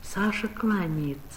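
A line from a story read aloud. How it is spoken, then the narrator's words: Plain. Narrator (Russian): сказала мать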